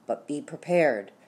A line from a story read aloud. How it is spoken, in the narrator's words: whispered